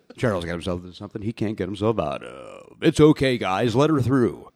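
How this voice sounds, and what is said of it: Deep announcer-style voice. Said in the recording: “this deep voice ... It's almost like Ernie Anderson”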